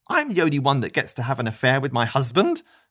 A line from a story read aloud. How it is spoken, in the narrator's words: Marty spat